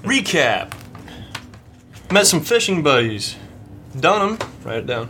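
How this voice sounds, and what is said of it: Put-on character accent. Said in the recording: “I thought you said you weren't doing an accent.”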